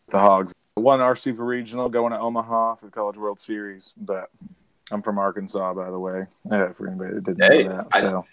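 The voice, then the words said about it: Hoarse voice, Southern country accent. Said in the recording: “You've kept the accent together though ... I sound a little more country right now because of my voice ... it's a little bit more hoarse than normal.”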